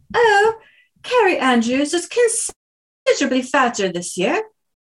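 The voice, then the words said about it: Put-on British accent. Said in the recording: “if I read it in a British accent”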